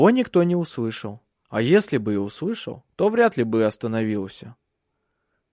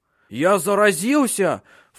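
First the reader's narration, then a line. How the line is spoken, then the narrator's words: Panicked shout. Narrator (Russian): в панике закричал он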